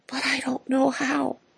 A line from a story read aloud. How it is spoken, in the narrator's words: heart moaned inside